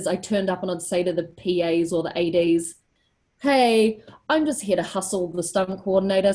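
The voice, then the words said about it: New Zealand accent. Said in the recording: “The great thing about having a Kiwi accent”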